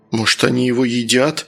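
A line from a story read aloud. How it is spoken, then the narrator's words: Frightened question. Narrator (Russian): испуганно спросил Саня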